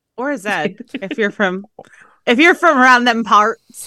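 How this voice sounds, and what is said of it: Put-on Southern American accent. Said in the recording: “I think my accent went Southern. I meant to go England ... You went straight Southern.”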